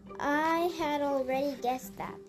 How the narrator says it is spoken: said

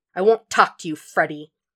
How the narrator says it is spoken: snapped

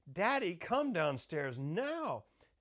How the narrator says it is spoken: yells up again

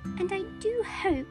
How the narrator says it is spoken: said Lucy in a tremulous voice

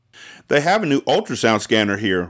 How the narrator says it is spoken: Rudy replied

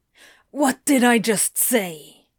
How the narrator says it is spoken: Crowley hisses

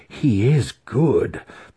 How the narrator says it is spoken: the master breathed

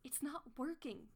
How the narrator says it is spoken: she gasps

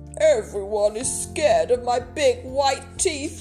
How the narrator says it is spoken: wailed Smiley Shark

